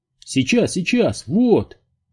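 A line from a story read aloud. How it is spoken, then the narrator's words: Shouting. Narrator (Russian): прокричал студент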